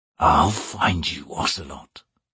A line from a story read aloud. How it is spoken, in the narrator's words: he whispered